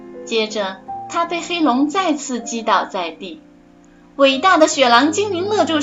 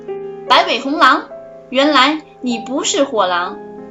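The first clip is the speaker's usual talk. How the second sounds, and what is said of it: Cold, chilly voice. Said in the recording (Chinese): “冷冷的声音说道”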